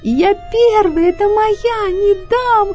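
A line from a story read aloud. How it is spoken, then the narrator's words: Sudden shriek, fox. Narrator (Russian): Вдруг взвизгнула лиса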